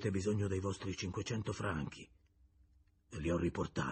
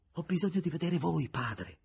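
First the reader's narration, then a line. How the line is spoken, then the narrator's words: Moved exclamation. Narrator (Italian): esclamò Julien commosso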